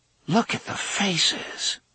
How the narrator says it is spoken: Susanna murmured

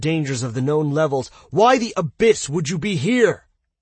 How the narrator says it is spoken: Dale roared

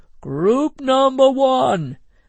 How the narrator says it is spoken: roared Mr

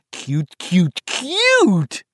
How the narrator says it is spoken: Richie exclaimed

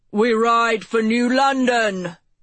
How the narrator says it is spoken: Mace shouted over the assembled crowd of soldiers

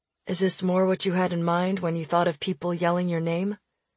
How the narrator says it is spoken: Donovan asked quietly from beside me

